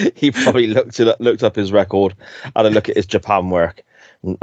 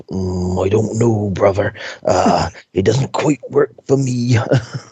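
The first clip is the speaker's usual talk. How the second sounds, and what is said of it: Bad Macho Man impression. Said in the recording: “That's the worst Macho Man impression.”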